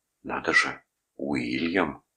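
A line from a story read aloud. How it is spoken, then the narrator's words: Whisper in ear. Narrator (Russian): прошептала Гретхен на ухо Вилли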